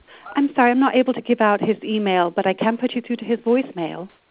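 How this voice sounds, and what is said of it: Fake British accent. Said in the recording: “That's a fake British accent if I've ever heard one.”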